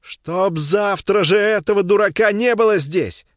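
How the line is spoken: Shouting. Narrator (Russian): кричала Софья Ивановна

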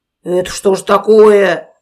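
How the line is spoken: Bear's growl. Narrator (Russian): зарычал медведь

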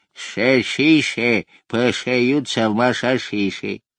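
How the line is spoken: Toothless mumble. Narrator (Russian): прошамкал беззубым ртом

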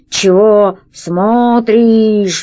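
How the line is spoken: Slow, laboured monster voice. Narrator (Russian): медленно проговорило чудовище, с трудом ворочая красным языком

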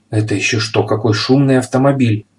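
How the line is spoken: Frightened exclamation. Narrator (Russian): испуганно воскликнул пепперминт

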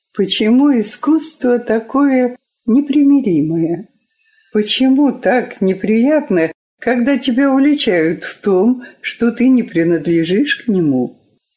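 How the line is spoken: Sad. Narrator (Russian): Сказала грустно

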